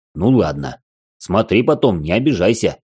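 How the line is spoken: Wry snort. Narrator (Russian): хмыкнул

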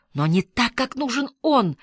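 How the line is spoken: Desperate exclamation. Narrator (Russian): в отчаянии воскликнул Питер Лорд

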